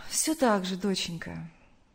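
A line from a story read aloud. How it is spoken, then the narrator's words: Sad mother's voice. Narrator (Russian): грустно ответила мать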